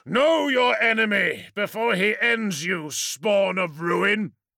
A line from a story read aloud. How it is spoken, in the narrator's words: came a clear voice, cutting through the battle roar like a shaft of sunlight